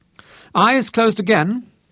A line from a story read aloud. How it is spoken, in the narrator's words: she called gaily